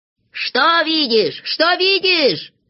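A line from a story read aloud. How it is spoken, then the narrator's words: Impatient shout. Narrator (Russian): закричал, сгорая от нетерпения, Знайка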